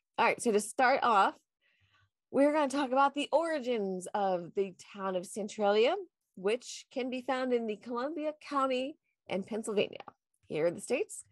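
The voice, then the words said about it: Nasal, congested voice. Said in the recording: “I've got a little bit of a cold. So if I sound a little different ... the non-normal nasally congested voice”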